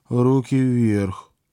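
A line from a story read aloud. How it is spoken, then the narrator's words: Cold. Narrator (Russian): Василиса холодно попросила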